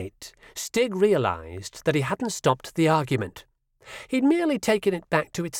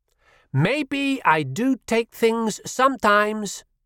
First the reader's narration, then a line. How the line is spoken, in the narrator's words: Jesper shouted over him